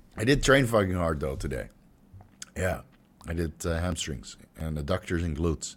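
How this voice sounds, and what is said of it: Hoarse, stuffy, fading voice. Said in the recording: “I'm starting to lose my voice. You hear that? ... A little bit stuffy, a little bit stuffy. ... I'm really starting to lose my voice.”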